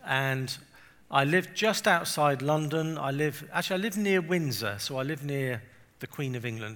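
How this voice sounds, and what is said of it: English accent. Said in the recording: “I'm from England. You can probably tell from my um, accent.”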